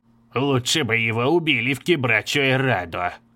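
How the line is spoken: Old man muttering. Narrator (Russian): пробормотал старик

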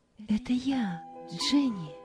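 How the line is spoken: Quiet. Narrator (Russian): Тихо сказала Роза

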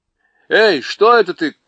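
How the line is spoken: Startled shout from pain. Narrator (Russian): крикнул он, потому что кот именно в этот миг его царапнул

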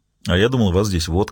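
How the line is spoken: Plain. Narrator (Russian): сказал Ельм

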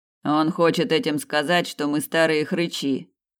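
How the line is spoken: Grumbled. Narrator (Russian): пробурчал Снейдер

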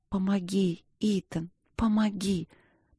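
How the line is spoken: Whisper. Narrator (Russian): прошептала я

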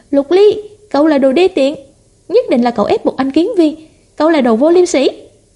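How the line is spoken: Loud shout. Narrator (Vietnamese): Tưởng Dung lập tức hét to

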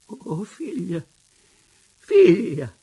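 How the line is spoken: Exclaiming. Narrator (Italian): esclamò

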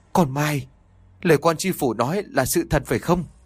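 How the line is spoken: Trembling voice. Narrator (Vietnamese): bà Lý run rẩy nói

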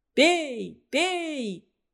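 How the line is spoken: Shouted from all sides. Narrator (Russian): кричали со всех сторон

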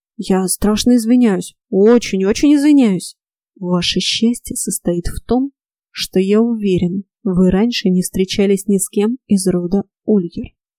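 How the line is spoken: Deep voice. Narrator (Russian): пробасил

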